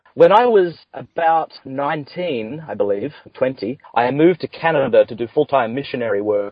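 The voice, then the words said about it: Deep Australian accent. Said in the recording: “It's not a Californian accent ... the deep Australian accent”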